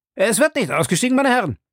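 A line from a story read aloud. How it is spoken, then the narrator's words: Hurried call. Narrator (German): kam der Kondukteur in aller Eile und rief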